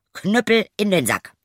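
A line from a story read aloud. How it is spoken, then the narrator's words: Calling out. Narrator (German): rief er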